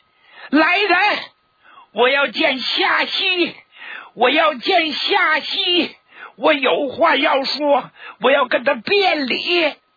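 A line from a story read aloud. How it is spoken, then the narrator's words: Shouting, losing control. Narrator (Chinese): 他再也控制不住自己的情绪了，就大声的冲外边喊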